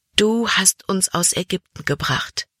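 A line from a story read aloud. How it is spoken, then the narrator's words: Sighing. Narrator (German): nun seufzte sie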